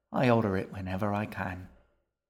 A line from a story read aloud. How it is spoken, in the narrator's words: he said with a sigh